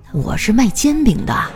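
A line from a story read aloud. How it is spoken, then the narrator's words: Old woman, low voice. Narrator (Chinese): 那老阿姨啊低声的说道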